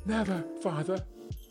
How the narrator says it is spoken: cried they all

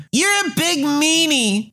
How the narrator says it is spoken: the little girl yells

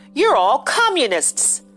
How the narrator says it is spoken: George yelled

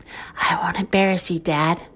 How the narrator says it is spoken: Chicken Little whispered

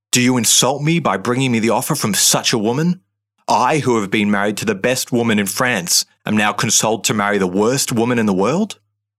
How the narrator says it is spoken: In a bout of uncontrolled rage, he spat

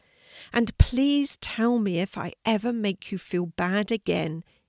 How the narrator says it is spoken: pleaded

